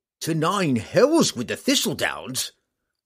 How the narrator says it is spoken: Roddy roared back

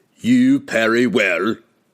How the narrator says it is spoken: Hefstag growled as he squared off just a few steps from his challenger

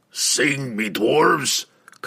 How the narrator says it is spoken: commanded the boss

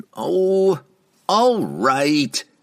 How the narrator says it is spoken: the tidy dwarf cried

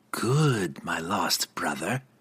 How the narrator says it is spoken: Verna purred

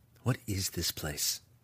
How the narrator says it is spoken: he whispered

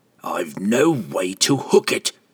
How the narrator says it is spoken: the assassin growled

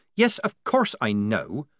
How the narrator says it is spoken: said Polly irritably

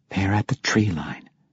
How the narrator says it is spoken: Catty Bree quietly informed him

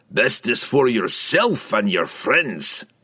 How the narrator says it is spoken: Bruner growled

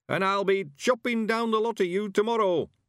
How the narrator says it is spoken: he shouted triumphantly

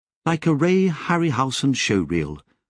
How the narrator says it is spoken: Lobsang said

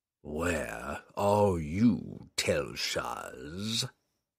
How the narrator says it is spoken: the demon hissed, expecting news of the relic

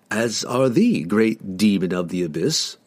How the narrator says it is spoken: Drizzt replied coolly

